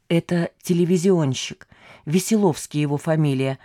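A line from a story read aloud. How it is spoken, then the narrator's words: Whispering with a smile. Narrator (Russian): зашептала, состроив ответную радостную улыбку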